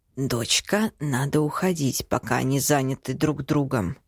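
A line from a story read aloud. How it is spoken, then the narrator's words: Quiet. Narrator (Russian): произносит тихонько дед Исай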